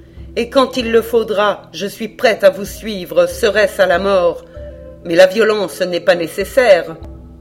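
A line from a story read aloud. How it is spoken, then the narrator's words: Cold. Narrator (French): dit-elle froidement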